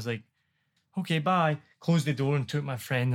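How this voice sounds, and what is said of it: Usual voice. Nothing is said of it.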